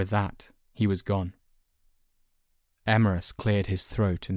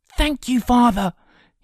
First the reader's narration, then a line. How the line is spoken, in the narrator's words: cried